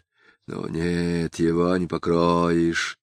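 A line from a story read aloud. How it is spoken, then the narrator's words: Muttering. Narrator (Russian): пробормотал поручик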